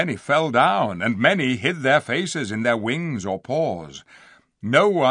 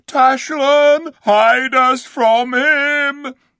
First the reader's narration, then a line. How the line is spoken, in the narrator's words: The beasts moaned and howled and called out